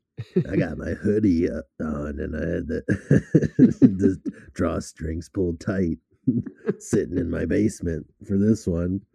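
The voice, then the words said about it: Creepy voice. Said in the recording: “creepy voice ... The creepy voice, it's all there.”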